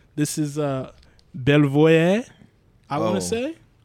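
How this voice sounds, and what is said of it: French-sounding pronunciation. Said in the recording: “That was actually pretty good. It sounded really French”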